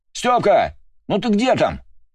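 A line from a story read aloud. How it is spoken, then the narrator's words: Yelling from another room. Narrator (Russian): заорал из прихожей Иван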